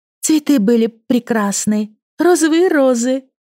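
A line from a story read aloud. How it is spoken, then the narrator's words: Sighed. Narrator (Russian): вздохнула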